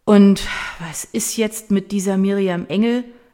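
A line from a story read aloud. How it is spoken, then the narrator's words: Drunken slurring. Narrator (German): lallt Mattes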